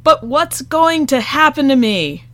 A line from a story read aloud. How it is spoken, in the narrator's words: Frankie shouted again